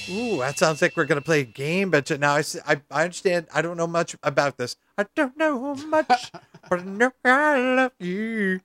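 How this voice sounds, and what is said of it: Sung imitation of another person's voice. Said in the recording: “my Aaron Neville impression ... I'm singing all the time doing this show ... I didn't do it too good today, actually. I did a bad job”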